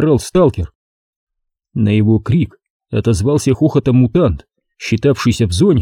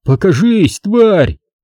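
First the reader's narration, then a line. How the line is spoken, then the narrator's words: Vagrant shouting. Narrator (Russian): снова закричал бродяга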